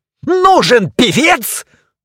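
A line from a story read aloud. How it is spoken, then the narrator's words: Full-throated yell. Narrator (Russian): завопил во всю мощь своей распетой глотки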